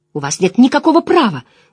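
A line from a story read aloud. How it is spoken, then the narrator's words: Protest breaking into shriek. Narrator (Russian): начала Эгвейн и пронзительно вскрикнула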